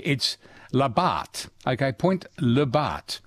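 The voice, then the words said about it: Place name in French accent. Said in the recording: “with a French accent.”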